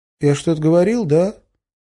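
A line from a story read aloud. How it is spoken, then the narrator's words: Timid question. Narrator (Russian): робко спросил Кеша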